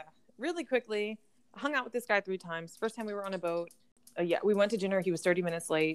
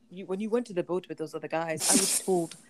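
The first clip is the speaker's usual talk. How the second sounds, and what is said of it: Put-on African accent. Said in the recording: “that African Dunker? Guy ... You doing that accent?”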